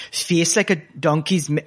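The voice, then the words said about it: Put-on Geordie accent. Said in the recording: “I'm turning to the accent when it wails... No, I've gone Geordie.”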